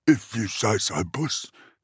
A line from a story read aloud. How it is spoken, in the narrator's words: Dregit muttered